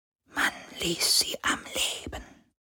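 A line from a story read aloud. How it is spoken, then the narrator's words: Displeased spirit whispering. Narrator (German): flüsterte der Geist des Meeres, hörbar missgestimmt über diesen Fakt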